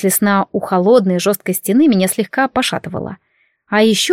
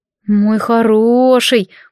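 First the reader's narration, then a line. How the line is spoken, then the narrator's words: Purred. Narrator (Russian): мурлыкнула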